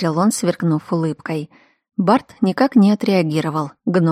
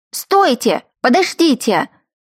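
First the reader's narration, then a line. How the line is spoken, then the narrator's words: Scream. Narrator (Russian): я закричала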